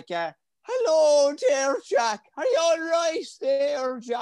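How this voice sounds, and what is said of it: Imitated Irish accent. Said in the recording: “they just start to do your accent”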